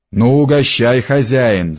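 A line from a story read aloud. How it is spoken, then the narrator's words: Shouted. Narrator (Russian): закричал Федька неустрой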